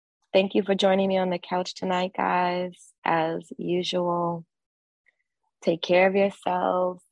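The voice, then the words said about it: Slightly congested voice from a cold. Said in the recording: “I have a little bit of a cold.”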